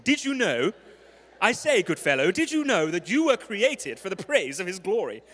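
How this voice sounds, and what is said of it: Put-on English accent. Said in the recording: “You have to say it in an English accent”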